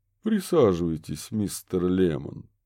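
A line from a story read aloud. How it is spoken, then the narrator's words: Mocking. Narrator (Russian): насмешливо предложил Броди Бёрн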